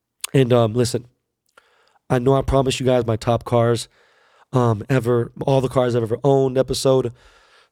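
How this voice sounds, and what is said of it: Hoarse, sick-sounding voice. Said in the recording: “I need to get my voice back. My voice is fucked up. If you guys haven't noticed right now ... my flu symptoms”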